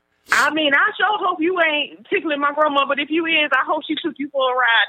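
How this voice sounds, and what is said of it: Southern American accent. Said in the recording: “love that southern accent”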